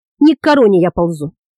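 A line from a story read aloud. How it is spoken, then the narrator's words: Calm. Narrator (Russian): спокойно ответил Тиир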